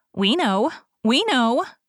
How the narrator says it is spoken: chirped the sparrows

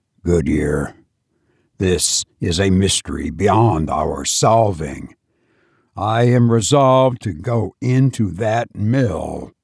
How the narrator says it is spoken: said in a low tone

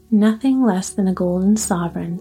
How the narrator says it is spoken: said the man

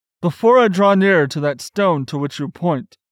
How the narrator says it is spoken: said Scrooge

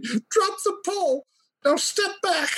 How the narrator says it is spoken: he yelled at me

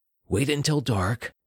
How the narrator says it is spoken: panted Rainier

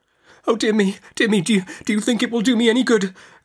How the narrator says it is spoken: cried my mother in a helpless manner

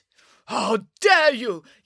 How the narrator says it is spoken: yelled

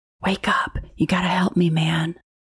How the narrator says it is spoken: He was whispering

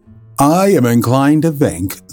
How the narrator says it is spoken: said I

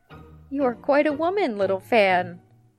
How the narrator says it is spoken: exclaimed the boy

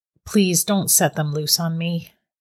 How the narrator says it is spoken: he begged in a low, soft tone

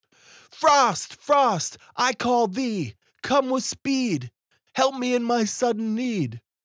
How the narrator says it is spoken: The ferryman called out

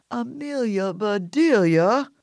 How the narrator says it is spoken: shouted Mr

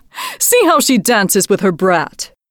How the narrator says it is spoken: robbers laughed and shouted

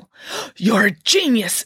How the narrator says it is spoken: she exclaimed

